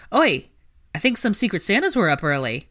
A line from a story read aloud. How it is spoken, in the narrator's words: he called out